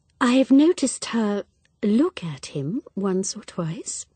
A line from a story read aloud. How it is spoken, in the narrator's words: murmured Miss Marple